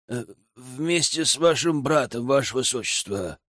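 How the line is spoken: Offended grumble. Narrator (Russian): буркнул обиженный церемониймейстер

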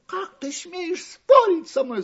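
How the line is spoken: Shouting. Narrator (Russian): закричала Остроноска

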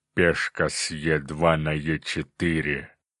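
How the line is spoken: Eager demonic growl. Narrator (Russian): азартно прорычал демон

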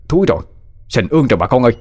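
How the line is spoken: Panicked shout, man. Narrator (Vietnamese): hốt hoảng một người đàn ông la lên

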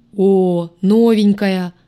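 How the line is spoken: Boomed right in ear. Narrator (Russian): прогудели мне прямо в ухо

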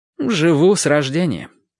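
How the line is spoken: Answered with a sigh. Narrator (Russian): ответил продавец и вздохнул

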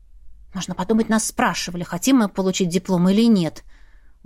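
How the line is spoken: Muttering to herself. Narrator (Russian): буркнула про себя

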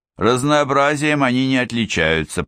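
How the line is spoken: Grumbled. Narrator (Russian): проворчал он

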